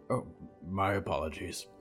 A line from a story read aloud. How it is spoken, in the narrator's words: Solomon grunted